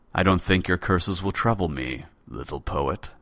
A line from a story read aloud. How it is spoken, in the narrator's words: said quietly